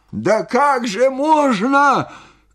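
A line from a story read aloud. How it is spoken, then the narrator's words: Amazed shout. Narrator (Russian): крикнул он, изумляясь моему спокойствию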